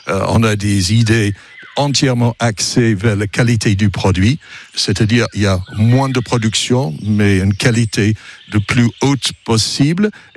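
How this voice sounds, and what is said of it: French with an English accent. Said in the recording (French): “on entend cet accent ... Mon accent du Berry ... ça vient de l'autre côté de la Manche”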